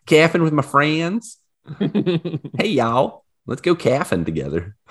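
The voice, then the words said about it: Exaggerated twang accent. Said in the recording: “you say calfing and you're like giving it a twang too”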